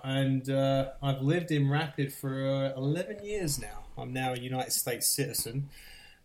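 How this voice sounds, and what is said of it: English accent from Essex. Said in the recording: “as you might tell by my voice. So I grew up just outside London in a place called Essex in the United Kingdom.”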